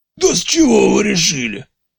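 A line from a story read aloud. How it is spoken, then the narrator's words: Hoarse exclamation. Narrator (Russian): Возглас директора получился хриплым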